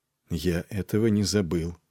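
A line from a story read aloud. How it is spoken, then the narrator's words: Quiet. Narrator (Russian): проговорил тихо Нед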